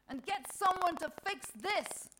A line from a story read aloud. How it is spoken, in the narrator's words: she shouts out